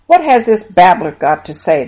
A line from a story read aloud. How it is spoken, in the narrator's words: asked with a sneer